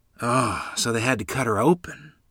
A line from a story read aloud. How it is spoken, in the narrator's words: Grandmother sighed deeply